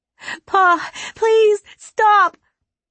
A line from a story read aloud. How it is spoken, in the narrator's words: Kaya cried out, then sobbed